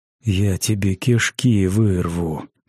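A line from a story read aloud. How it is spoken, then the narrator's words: Hissed threat. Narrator (Russian): прошипел умник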